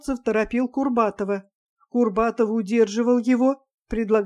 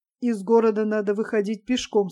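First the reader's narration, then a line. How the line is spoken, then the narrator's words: Plain. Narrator (Russian): сказал Ставцев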